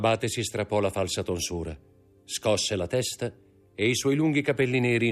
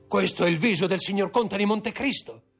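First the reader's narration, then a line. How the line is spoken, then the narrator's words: Frantic shout. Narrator (Italian): gridò Villefort con gli occhi stravolti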